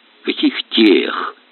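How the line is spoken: Quiet fury. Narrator (Russian): Тихо взъярился Аристарх Павлович

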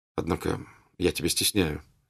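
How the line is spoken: Said quietly. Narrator (Russian): сказал он ему тихо

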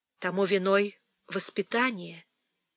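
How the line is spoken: Soft. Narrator (Russian): мягко сказала Фанни

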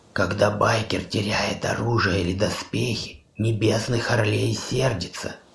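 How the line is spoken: Sepulchral voice. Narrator (Russian): сказала Хона за могильным голосом

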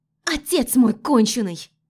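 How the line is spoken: Shouted. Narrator (Russian): Выкрикнула она

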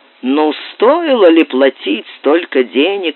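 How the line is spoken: Grumbling. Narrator (Russian): ворчал

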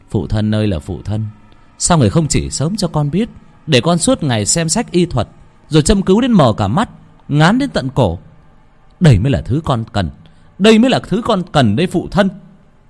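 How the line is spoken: Smug loud laughter. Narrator (Vietnamese): Đắc ý cười to

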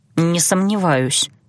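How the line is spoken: Gruff mutter. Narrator (Russian): буркнула я

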